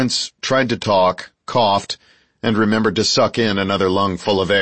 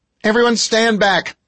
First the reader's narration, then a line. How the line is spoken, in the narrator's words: shouted the female officer